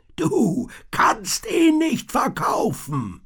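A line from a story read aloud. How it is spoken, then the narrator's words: Roared. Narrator (German): brüllte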